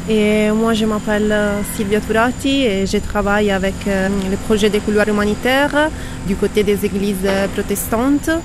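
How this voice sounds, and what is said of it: Italian accent speaking French. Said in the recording (French): “avec ce bel accent italien”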